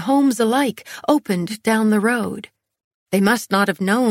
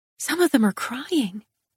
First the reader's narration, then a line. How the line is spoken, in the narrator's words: I whispered